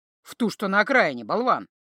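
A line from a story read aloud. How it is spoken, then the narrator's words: Scoffing. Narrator (Russian): Знахарка хмыкнула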